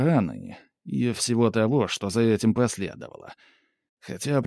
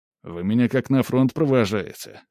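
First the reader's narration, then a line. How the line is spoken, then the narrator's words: Snorting. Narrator (Russian): хмыкнул скип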